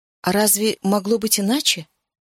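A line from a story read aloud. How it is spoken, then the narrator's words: Quiet reply. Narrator (Russian): тихо ответила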